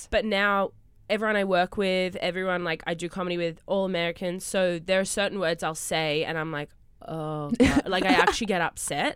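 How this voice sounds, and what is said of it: Australian accent. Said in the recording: “Your accent is the I live. ... In Australia for a while”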